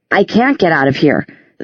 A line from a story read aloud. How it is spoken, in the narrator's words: Simon said tightly